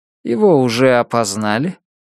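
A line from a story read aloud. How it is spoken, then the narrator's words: Deliberately bored voice. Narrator (Russian): Халлос задал этот вопрос нарочито скучающим голосом заключенного, который просто тянет время, чтобы еще пару минут не возвращаться в камеру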